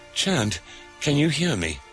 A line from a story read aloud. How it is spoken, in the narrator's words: he desperately asked